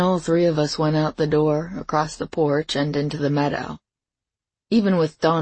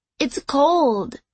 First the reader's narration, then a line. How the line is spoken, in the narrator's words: went into the stock tank, yelling